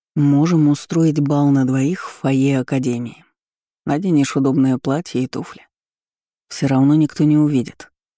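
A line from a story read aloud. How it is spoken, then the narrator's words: Seductive coaxing. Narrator (Russian): соблазнял Карпов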